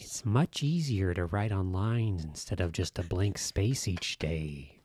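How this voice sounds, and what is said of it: Joker character voice. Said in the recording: “It sounds like the Jack Nicholson Joker, not the Heath Ledger Joker.”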